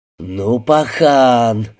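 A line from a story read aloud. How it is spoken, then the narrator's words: Stunned drawl. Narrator (Russian): ошарашенно протянул Вася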